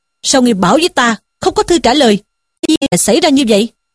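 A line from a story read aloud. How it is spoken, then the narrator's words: Angry shouted question. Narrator (Vietnamese): Sử Tiến nghe nói cả giận, quát hỏi Dương Tứ rằng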